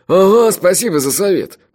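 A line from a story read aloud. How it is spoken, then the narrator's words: Grumbling. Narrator (Russian): проворчал его братец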